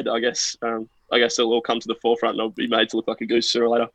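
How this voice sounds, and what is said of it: Australian accent. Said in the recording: “your best y'all in the Australian accent”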